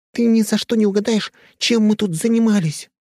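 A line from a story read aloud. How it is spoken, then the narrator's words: Joyful blurt. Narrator (Russian): радостно выпалила Нюша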